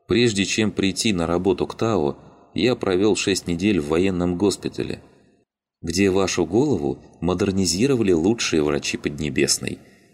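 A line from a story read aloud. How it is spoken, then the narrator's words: Soft, gentle. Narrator (Russian): мягко продолжил Мишенька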